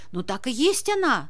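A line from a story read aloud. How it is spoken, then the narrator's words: Exclaiming bandit. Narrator (Russian): воскликнул бандит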